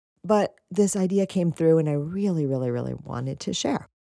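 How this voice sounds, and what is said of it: Hoarse, scratchy voice. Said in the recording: “apologize for my hoarse voice... screaming over music... I'm a little bit scratchy”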